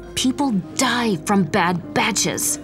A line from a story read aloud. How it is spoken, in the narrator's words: she hissed